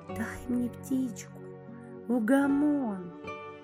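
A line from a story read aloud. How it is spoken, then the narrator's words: Whispered request. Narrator (Russian): Просит шепотом Антон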